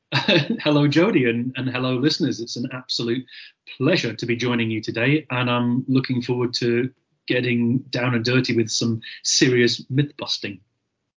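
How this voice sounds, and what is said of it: Scottish accent. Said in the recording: “Scotland, obviously, by my accent.”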